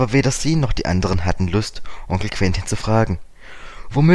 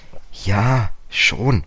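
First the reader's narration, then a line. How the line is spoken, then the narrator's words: Hesitant. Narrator (German): sagte George zögernd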